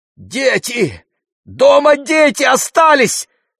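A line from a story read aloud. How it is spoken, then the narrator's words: Shouting aunt. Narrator (Russian): закричала тетя Бахшанда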